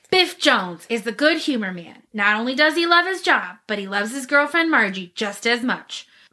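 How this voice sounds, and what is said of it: Dramatic movie-trailer narrator voice. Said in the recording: “in my best movie voice”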